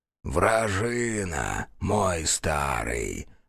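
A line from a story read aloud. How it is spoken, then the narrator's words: Creaky. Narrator (Russian): проскрипел Шушмар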